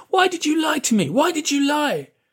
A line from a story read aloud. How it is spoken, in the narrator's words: A boy was shouting at the agent